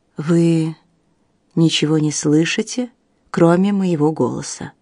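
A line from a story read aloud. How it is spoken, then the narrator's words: Gently coaxing. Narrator (Russian): мягко увещевал Бартон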